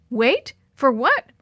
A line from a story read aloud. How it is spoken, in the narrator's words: Maria exclaimed